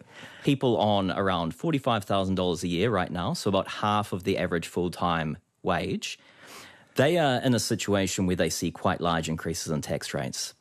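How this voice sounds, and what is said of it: New Zealand accent. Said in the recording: “Apologies for my Kiwi accent.”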